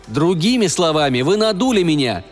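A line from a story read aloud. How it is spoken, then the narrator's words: Plain. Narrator (Russian): сказал Фенвик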